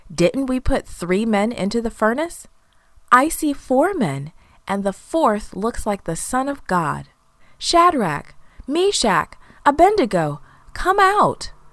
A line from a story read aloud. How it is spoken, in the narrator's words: He soon jumped up and shouted